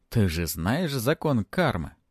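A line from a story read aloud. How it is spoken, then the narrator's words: Slightly mocking. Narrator (Russian): Последние слова звучали несколько насмешливо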